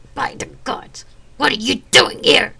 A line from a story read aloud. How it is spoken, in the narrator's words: He roared